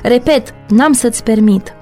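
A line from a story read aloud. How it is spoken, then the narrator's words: Shouting furiously. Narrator (Romanian): el strigă furios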